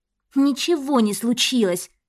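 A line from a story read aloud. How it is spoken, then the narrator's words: Through gritted teeth. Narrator (Russian): Сквозь зубы процедила Татьяна, с напором налегая на дверь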